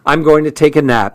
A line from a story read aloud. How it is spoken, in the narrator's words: she said